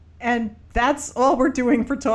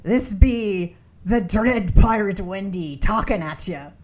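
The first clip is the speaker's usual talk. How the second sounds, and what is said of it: Pirate voice. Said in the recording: “Talk Like a Pirate Day ... talk like that for the rest of our cast”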